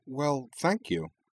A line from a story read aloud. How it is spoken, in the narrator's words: she said, entirely disarmed by the cheerfully candid way he'd said it